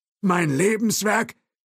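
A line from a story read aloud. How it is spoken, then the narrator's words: Calling out. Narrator (German): rief Thompson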